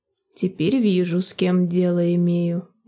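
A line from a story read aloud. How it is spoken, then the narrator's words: Grim. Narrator (Russian): мрачно выговорила Голда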